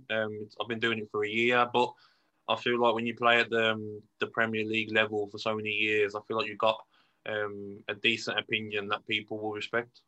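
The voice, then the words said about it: Birmingham (Brummie) English accent. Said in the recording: “I love the Brummie accent.”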